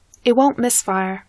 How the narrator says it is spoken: she says, her voice far more certain than she is

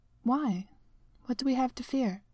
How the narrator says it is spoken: T'Challa kept his voice gentle

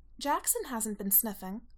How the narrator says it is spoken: Allison says sharply

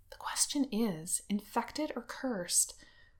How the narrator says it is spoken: Wen Qing is muttering

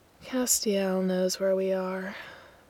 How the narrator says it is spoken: Gabriel mutters

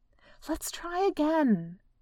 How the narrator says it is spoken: Bella pleaded

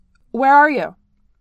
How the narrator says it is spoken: He shouts back into his phone

